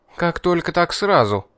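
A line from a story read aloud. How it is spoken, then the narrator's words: Girl snapping. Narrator (Russian): огрызнулась девушка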